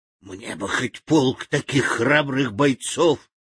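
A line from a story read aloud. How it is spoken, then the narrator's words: Half-conscious whisper. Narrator (Russian): полузабытье прошептала Арахна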